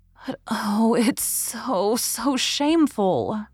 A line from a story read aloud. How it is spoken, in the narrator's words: murmured Leslie